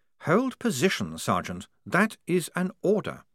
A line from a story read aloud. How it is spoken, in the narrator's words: said Blouse calmly